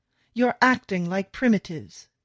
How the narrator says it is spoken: Theodore shouts

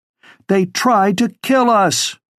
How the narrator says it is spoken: as a lull hit, she shouted over the rest

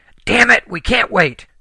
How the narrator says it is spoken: Helen yelled

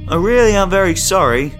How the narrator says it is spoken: Kenneth shouted

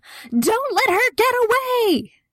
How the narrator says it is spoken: the woman with the eyes puffy from crying shouted louder than any of them

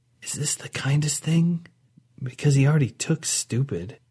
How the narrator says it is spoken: Audra whispered to Nava

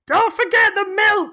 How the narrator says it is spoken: Kathy, who's sort of shouting

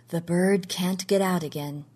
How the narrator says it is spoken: he said softly

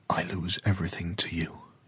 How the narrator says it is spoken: he whispered to the ocean

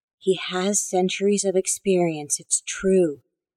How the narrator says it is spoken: the woman in the wheelchair whispered

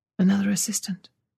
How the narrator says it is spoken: she whispered

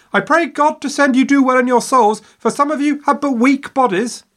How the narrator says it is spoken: hanging out of her window, yelling at their backs

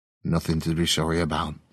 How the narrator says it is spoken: Glenda said

